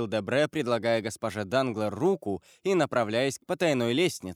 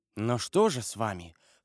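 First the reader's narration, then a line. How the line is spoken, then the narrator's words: Whispered repetition. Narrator (Russian): шепотом повторил Дебре госпоже Данглар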